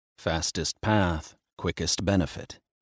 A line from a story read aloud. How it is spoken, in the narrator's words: he muttered